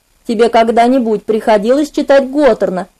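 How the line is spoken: Soft, gentle question. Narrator (Russian): мягко спросил он

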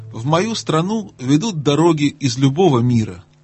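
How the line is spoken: Plain. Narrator (Russian): ответил ягненок

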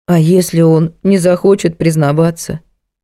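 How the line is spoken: Dejected question. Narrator (Russian): уныло спросила Женька

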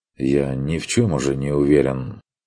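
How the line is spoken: Gloomy reply. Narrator (Russian): отозвался Курт уныло

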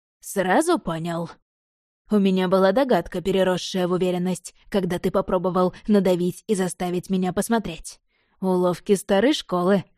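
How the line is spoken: Plain. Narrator (Russian): ответил ведьмак

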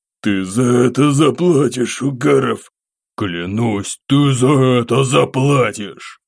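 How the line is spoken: Hiss. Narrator (Russian): шипение этого урода

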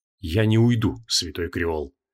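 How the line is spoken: Quiet reply. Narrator (Russian): так же тихо ответил лорд Гвидеон

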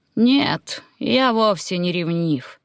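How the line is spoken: Lazy reply. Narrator (Russian): лениво отозвался король Каритан

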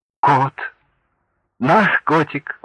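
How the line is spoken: Exclaimed. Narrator (Russian): воскликнул

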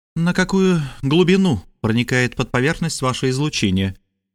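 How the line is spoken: Grim question over intercom. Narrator (Russian): мрачно спросила она по внутрикорабельному коммуникатору

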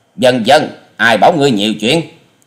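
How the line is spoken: Angry loud shout. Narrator (Vietnamese): Hà Xà Tiên Tử giận dữ quát to

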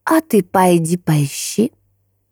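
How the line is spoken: Pleased laughter. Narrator (Russian): она рассмеялась, явно довольная сказанным

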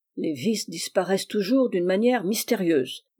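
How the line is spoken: Grumbled. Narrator (French): grommela-t-il

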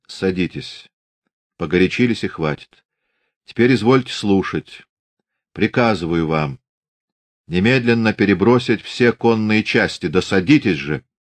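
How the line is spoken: Calm. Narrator (Russian): уже совсем спокойно

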